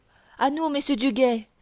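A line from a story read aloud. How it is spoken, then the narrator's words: Shout. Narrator (French): cria Gringoire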